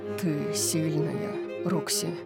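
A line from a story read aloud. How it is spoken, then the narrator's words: Quiet. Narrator (Russian): тихо сказал Дариус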